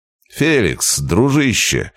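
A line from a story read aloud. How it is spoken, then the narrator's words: Loud hall-filling exclamation. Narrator (Russian): воскликнул я на весь зал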